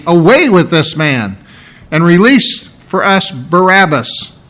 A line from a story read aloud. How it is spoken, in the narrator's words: they cried out altogether, saying